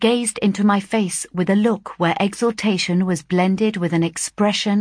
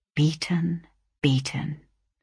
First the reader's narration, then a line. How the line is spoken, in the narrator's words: murmured